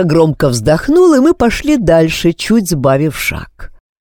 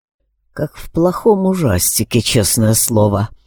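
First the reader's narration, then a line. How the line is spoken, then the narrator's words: Mumbled. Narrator (Russian): пробормотал Алекс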